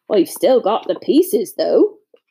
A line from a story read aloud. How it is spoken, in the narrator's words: he added brightly